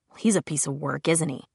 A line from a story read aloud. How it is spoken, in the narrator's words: Simon muttered